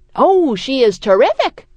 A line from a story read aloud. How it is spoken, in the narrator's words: my father exclaims, shocked that I could be calling Lou's musical talent into question